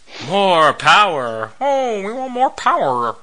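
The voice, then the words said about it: Kermit the Frog cartoon voice. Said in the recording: “Kermit the Frog playing Tim the Toolman Taylor ... my Kermit the Frog impression of Kermit the Frog doing Tim the Toolman Taylor ... I can do a pretty good Kermit the Frog”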